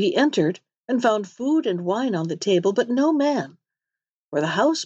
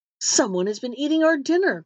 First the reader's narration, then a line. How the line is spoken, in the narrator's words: cried they